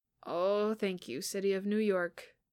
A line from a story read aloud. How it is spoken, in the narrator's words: Peter groaned